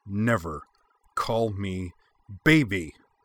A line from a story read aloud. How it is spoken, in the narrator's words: Anne snarled